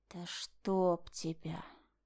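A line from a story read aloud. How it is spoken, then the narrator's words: Through gritted teeth. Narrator (Russian): процедил Бертон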